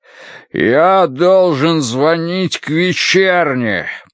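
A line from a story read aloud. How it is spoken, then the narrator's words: Booming. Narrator (Russian): прогремел он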